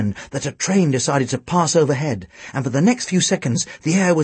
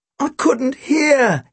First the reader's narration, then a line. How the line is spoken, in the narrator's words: wailed